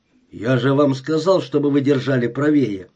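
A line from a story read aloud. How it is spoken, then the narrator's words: Grumbling man. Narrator (Russian): проворчал человек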